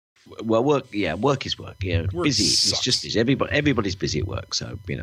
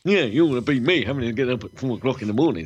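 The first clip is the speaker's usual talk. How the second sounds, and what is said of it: Imitates another person's voice. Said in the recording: “that Carl impression. That is so, spot on.”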